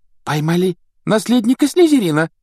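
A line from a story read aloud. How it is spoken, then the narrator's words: Girl exclaiming. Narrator (Russian): воскликнула какая-то девушка за столом Когтеврана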